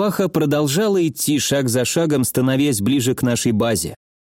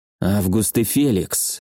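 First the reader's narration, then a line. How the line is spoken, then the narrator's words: Almost inaudible whisper. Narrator (Russian): тихо, почти неслышно прошептал я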